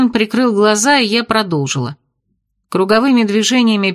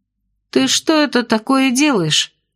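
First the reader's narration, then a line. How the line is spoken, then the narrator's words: Insinuating question. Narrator (Russian): вкрадчиво спросила я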